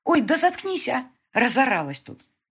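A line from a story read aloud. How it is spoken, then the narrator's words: Snapping retort. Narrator (Russian): огрызнулась ей Соня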